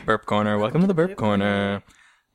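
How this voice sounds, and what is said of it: Radio announcer voice. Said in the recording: “Good radio voice.”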